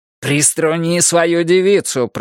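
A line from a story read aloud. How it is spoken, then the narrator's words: Hiss. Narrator (Russian): прошипел Джеки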